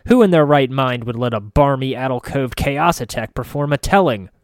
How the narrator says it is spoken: Sai Tavakas snarls from her table

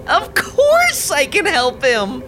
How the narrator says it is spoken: Roxy squealed on the phone

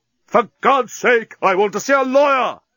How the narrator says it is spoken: Leovinus screamed at the top of his voice

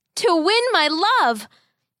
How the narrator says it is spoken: the boy shouted back

